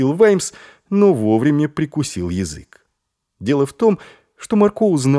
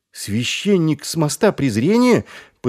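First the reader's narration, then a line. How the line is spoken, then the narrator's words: Shocked exclamation. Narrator (Russian): потрясенно воскликнул Маркоу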